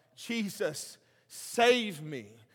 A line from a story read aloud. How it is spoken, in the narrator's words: He cried out